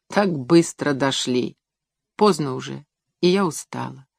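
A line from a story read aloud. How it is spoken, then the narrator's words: Quiet. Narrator (Russian): тихо сказала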